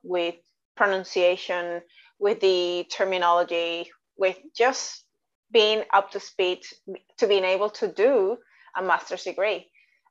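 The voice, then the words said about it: Mixed Australian and Latin Spanish accent. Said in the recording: “a lot of people still pick up my accent ... your English is strange ... this is not necessarily totally Australian. It's not from the United States either. It's just like a mix of Australian and Latin and Spanish.”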